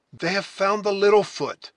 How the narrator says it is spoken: exclaimed the scout

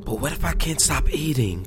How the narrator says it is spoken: whispered, blinking quickly until the tears had retreated

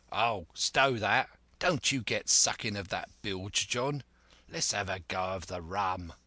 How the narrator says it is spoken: the voice of Hans exclaimed

